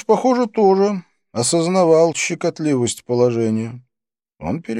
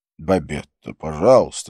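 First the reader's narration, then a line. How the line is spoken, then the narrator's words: Quiet. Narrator (Russian): сказал он тихо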